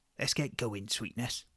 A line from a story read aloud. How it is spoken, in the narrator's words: I whispered